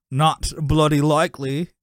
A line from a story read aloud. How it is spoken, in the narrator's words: he says in a cockney accent